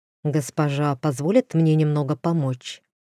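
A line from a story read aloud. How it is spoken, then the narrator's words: Quiet, deferential. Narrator (Russian): Дроу негромко сказал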